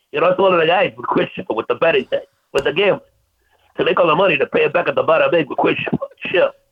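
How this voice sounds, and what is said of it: Tony Soprano mobster character impression. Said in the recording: “my Tony Soprano ... That's spot on.”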